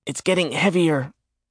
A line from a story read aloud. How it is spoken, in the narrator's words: Randolph gasped